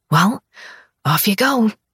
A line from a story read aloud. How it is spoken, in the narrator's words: I rasp